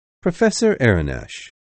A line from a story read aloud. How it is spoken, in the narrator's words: he said